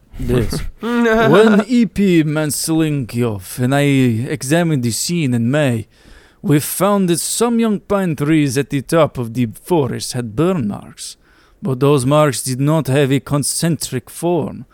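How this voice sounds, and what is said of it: Put-on Russian accent. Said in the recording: “a Russian accent... as if you're talking to a bear.”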